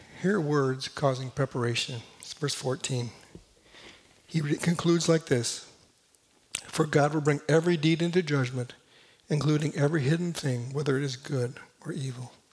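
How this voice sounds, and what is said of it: Hoarse, fading voice. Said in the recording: “I'm losing my voice today”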